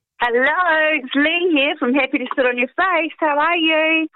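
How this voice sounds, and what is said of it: New Zealand accent. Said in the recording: “am I noticing a New Zealand accent there?”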